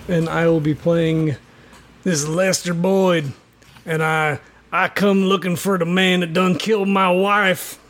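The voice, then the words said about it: Gravelly cowboy character voice. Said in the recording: “do that voice ... Oh, that's real gravelly. That's real gravelly.”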